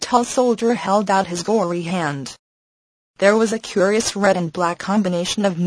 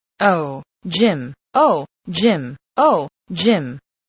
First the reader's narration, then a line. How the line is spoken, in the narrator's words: He stuttered and stammered